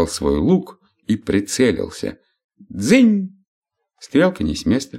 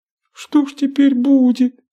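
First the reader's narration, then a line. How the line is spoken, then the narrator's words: Sobbing. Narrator (Russian): всхлипнула минутка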